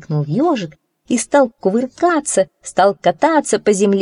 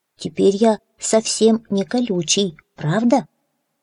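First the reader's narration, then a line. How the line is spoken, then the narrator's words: Hedgehog mumbling. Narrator (Russian): ежик пробормотал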